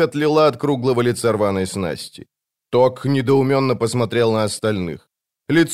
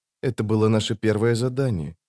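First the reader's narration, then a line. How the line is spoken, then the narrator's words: Quiet. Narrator (Russian): тихо проговорила рваная снасть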